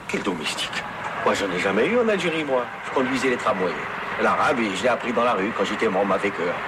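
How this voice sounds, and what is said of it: French spoken with pied-noir accent. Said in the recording (French): “Ce serait plutôt le français que je parle avec un accent”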